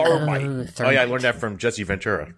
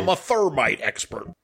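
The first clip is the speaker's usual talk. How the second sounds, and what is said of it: Imitates another person's voice. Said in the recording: “That was a solid Jesse Ventura impersonation.”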